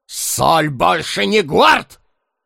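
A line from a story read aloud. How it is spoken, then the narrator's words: Barked. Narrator (Russian): рявкнул Карвер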